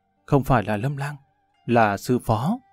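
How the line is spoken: Tearful. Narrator (Vietnamese): Tiêu Tiểu Thư hai mắt ươn ướt

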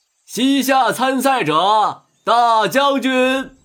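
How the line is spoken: Shouting announcement. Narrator (Chinese): 裁判官员喊

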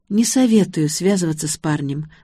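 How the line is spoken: Sighed. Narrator (Russian): вздохнула

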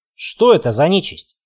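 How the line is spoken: Plain. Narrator (Russian): спросил я

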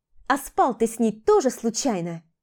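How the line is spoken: Shouting. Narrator (Russian): крикнула я

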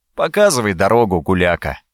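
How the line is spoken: Sad and hurt voice. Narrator (Russian): в голосе Ледарея звучало столько печали и обиды на друзей

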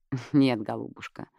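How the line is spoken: Snort. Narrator (Russian): хмыкнула Эмили

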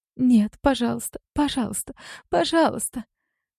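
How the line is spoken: Sobbing. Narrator (Russian): Всхлипывает

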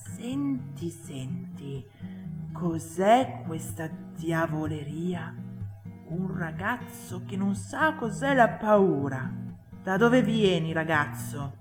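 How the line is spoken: Whisper from behind. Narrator (Italian): una voce alle sue spalle che sussurrava

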